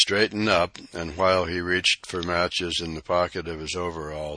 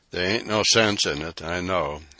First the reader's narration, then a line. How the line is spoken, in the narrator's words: he mumbled apologetically